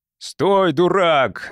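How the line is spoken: Yelled. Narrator (Russian): заорал Моллет

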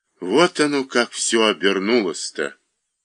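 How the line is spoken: Cough, then dejected voice. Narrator (Russian): Усков кашлянул в кулак и сказал упавшим голосом

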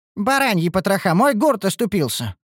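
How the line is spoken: Cry out. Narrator (Russian): вскрикнул

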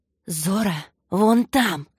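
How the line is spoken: Hissed. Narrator (Russian): прошипела Саня, снова принявшая человеческий облик

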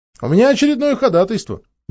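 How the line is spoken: Cheerful. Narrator (Russian): весело сообщил адвокат

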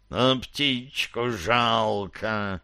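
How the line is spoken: Hiss. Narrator (Russian): прошипел Ангмарец

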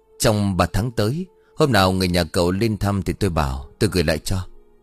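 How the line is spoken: Muttering. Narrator (Vietnamese): Vũ lẩm bẩm

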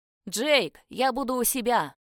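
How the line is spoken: Shouted. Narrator (Russian): крикнул помощнику

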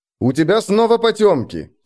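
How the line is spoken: Loud. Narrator (Russian): сказал я громко

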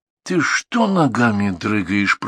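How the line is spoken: Muttering. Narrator (Russian): пробормотал Сережа

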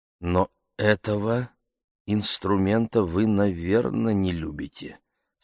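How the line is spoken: Undertone. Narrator (Russian): сказал я вполголоса

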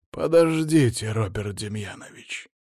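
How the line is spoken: Hoarse interruption. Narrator (Russian): хрипло прервал его Щербатый

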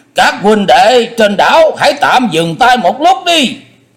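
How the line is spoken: Raised voice calling out. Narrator (Vietnamese): có người cất cao giọng kêu lên

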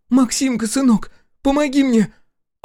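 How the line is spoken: Mother shouting. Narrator (Russian): Мать вновь закричала

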